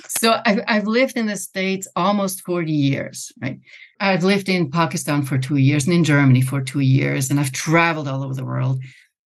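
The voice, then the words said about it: Swiss accent. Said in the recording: “that cute accent I have is Swiss”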